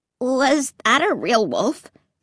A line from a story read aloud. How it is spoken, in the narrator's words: Clay asked, his voice shaking